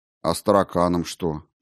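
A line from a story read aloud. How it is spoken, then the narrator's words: Sad sigh. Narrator (Russian): печально вздохнул Сенцов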